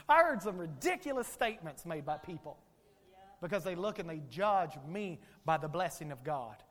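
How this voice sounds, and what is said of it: Rural backwoods American accent. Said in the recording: “people could listen to this accent. ... who is this redneck from the backwoods?”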